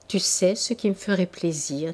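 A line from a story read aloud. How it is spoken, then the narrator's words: Plain. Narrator (French): dit-elle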